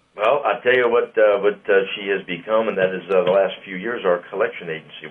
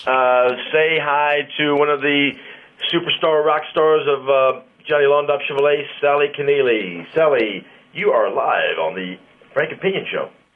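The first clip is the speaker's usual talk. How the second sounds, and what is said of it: Announcer-style radio voice. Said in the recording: “That was ... radio voice.”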